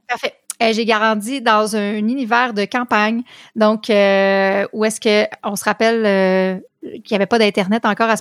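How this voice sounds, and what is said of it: Québécois French accent. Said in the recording (French): “tout le monde a entendu que tu avais un accent. ... j'habite au Québec, province du Canada”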